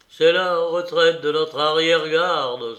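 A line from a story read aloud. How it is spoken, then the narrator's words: Exclaiming. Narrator (French): s'écria le major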